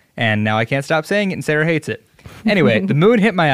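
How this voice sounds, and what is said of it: Usual voice. Nothing is said of it.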